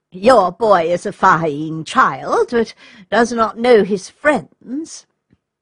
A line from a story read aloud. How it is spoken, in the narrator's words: with a forced laugh, and remarked